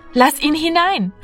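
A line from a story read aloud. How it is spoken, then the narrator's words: Calling out. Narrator (German): rief Martina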